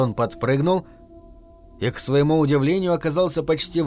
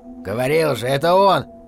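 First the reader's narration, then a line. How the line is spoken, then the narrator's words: Wolf's growl. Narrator (Russian): прорычал волк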